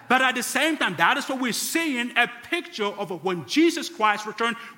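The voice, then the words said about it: Mixed, hard-to-place foreign accent. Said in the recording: “a funny accent, and it's hard to tell where my accent is ... how messed up my accent could possibly be”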